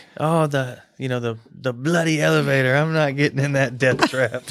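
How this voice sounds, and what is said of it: Put-on British accent. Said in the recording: “I've got to compliment you on your British accent.”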